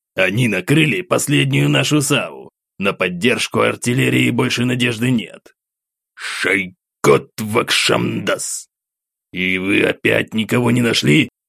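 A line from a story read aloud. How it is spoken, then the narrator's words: Through clenched teeth. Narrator (Russian): Сквозь зубы бросил собеседник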